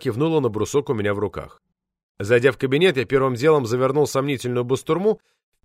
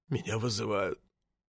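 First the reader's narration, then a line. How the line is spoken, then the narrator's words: Barely audible sobbing. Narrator (Russian): еле слышно произнес он рыдающими губами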